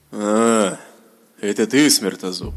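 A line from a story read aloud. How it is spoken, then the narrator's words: Weary greeting, dark mage. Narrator (Russian): Устало поприветствовал новоприбывшего подчиненного темный маг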